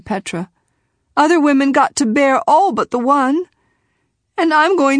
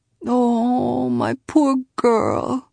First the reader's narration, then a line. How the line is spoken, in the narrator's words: her mother kept murmuring